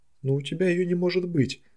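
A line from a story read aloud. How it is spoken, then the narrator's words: Exclaiming. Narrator (Russian): воскликнула Садака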